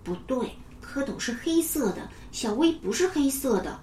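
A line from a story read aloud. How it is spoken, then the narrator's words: Soft, quiet. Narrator (Chinese): 安雄轻声对牛牛说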